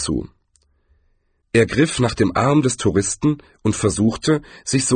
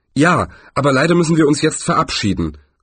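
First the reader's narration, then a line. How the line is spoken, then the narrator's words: Loud speech. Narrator (German): sagte Rincewind laut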